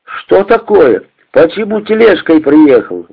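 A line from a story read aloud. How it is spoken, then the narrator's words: Exclaimed. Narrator (Russian): воскликнул он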